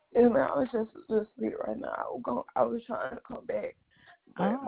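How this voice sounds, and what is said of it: Sounds sick. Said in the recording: “You sound sick.”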